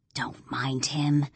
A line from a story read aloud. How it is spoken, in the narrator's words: Jillian whispers in my ear